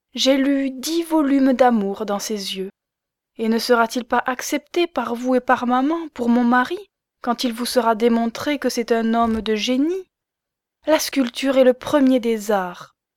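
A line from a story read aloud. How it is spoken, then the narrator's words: Excited, clapping exclamation. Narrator (French): s'écria-t-elle en battant des mains et sautant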